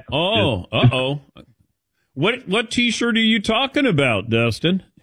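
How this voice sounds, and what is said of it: Put-on Southern US accent. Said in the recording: “I don't know why I did a Southern accent there.”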